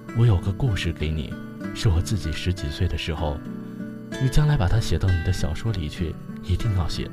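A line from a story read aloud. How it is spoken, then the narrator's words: Low, hushed voice. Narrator (Chinese): 压低了声音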